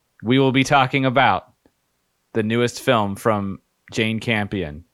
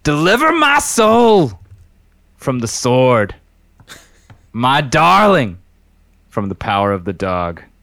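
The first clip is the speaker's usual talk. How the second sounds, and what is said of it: Impassioned pastor-style preaching voice. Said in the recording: “you're doing like a pastor impersonation ... I'm impassioned with this.”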